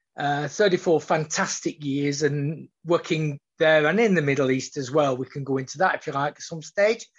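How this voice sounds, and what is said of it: Broad northern English, Australian-tinged accent. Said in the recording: “I have a very, very broad accent... my Australian accent waxes and wanes... you will hear some Australianisms... you'll hear some broad flat vowels because I'm in Rochdale”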